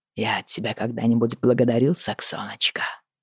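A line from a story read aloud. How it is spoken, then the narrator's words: Husky question. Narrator (Russian): спросил он с хрипотцой в голосе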